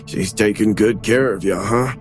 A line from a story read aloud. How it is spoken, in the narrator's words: Phil said to Patty in a joking tone